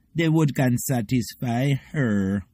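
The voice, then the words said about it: Bad I Wayne impression. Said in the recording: “That's I Wayne, even though I did a really bad impression.”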